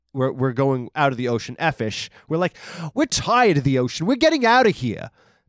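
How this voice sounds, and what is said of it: Put-on Jewish accent. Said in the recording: “That's my Jewish accent”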